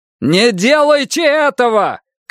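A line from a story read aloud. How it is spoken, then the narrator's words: Shout. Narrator (Russian): крикнул комиссар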